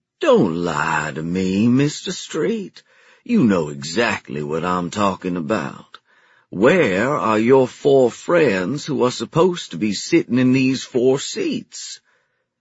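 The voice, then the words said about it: Slow, gravelly southern accent. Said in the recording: “in a slow, gravelly southern accent”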